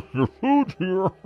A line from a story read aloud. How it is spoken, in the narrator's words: He laughed then, this low, wheezing chuckle that sent chills down my spine